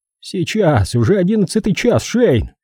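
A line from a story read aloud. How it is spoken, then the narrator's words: Exclamation. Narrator (Russian): воскликнул он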